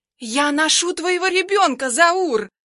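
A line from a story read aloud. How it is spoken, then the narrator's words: Shrieked. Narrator (Russian): Взвизгивает Синявкина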